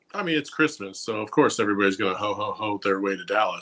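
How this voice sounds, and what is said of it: Ho-hum impression of Gerald. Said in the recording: “I'm trying my very best to be a Gerald impersonator right now ... You're nailing it ... It's a Saul-esque Gerald vibe ... It's very ho-hum”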